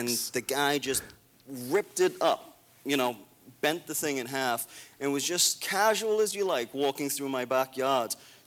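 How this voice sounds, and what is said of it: Rich British accent. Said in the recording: “what kind of accent is that? ... It's like a fake accent. ... He has like a rich British accent.”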